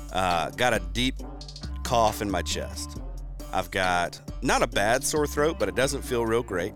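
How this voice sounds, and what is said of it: Congested, rough sick voice. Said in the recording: “Super congested, like up in here... my voice just is garbage right now. Like, it is not in good shape.”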